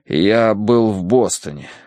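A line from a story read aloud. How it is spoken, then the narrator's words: Forced out. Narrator (Russian): выдавил я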